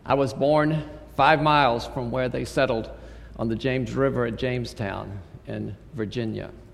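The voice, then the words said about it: Non-Texan American accent. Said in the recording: “You can tell from my voice that I wasn't born in Texas.”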